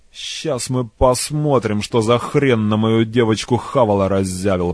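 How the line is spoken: Grumbling with exaggerated bravado. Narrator (Russian): проворчал преувеличенно храбро

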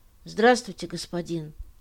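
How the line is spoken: Calm, bold. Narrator (Russian): Он произнес эти слова спокойно и смело

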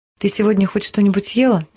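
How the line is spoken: Quiet, just-woken question. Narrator (Russian): тихо спросила женщина, когда снова проснулась

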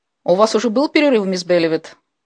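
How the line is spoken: Sharp reproachful question. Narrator (Russian): спросила миссис Хендриксон так резко, словно упрекая ее в чем-то

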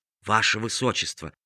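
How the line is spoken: Whisper in ear. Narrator (Russian): прошептал на ухо принцу старший камергер

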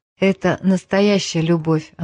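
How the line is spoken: Sighing. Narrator (Russian): она вздохнула

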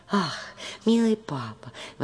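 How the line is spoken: Exclamation. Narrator (Russian): воскликнула наконец Мари

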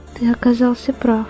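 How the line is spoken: Quiet female reply. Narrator (Russian): тихо ответила она

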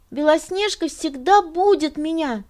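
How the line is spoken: Excited explaining. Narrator (Russian): взволнованно объяснял он

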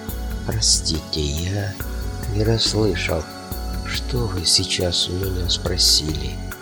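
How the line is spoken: Dazed mumbling. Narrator (Russian): Сармат очнулся от гипноза воспоминаний и промямлил

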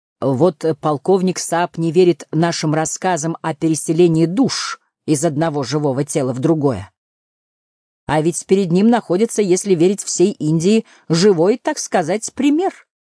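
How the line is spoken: Loud speech. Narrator (Russian): громко заговорил

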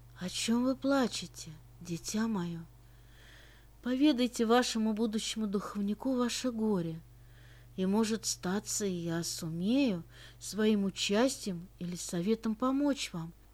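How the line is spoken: Soft, tender voice. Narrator (Russian): произнес он тем мягким ласковым голосом, который вливался прямо в душу

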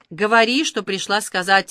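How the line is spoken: Shout. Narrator (Russian): выкрикнула Сафо

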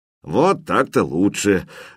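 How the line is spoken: Big man's approving grumble. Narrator (Russian): одобрительно пробурчал здоровяк

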